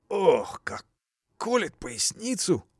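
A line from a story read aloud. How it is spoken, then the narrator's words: Groaning in pain. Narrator (Russian): простонал Петр Иванович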